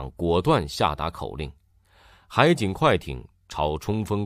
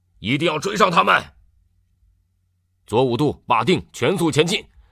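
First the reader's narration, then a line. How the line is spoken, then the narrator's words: Loud. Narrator (Chinese): 张贵刚 大声说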